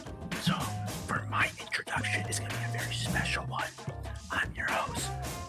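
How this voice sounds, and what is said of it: Whispering, quiet voice. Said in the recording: “why I'm whispering, ... I'm not trying to be very loud.”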